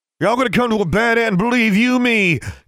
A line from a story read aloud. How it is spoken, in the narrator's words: he shouted